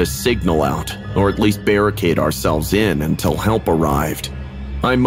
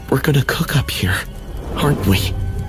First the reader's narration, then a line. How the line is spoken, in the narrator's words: Jake's voice was barely a whisper, raw with fear